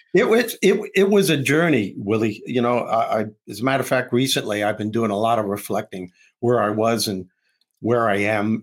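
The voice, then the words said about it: New York accent. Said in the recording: “you got that New York accent”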